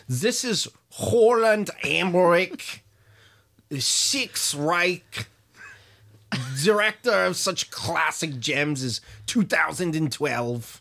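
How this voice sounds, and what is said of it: German accent impression of Roland Emmerich. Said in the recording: “a slightly different German accent than the last one I did for Werner Herzog. This is Roland Emmerich”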